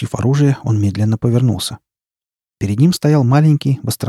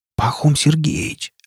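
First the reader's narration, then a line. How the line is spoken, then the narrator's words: Whispered. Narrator (Russian): прошептал Рамир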